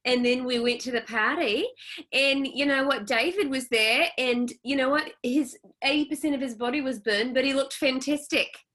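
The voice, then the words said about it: Put-on accent quoting someone. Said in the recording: “you can use that accent and like make anything sound great”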